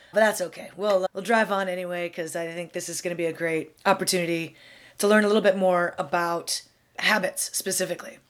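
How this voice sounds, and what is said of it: Froggy, slightly hoarse voice. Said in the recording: “you can probably hear I'm a little under the weather. My voice is a little froggy today.”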